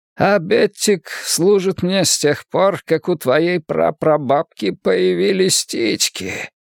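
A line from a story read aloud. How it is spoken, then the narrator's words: Old man's rasp. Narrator (Russian): прохрипел старик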